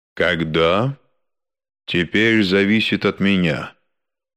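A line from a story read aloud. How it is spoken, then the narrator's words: Dry, Englishman. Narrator (Russian): в конце концов сухо сказал англичанин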